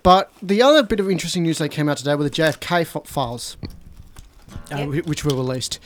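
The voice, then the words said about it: Croaky, worn-out voice. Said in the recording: “I've been talking for 2 hours, so my voice is a bit croaky.”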